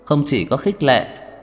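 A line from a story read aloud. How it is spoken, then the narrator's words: Smiling. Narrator (Vietnamese): Lauren mỉm cười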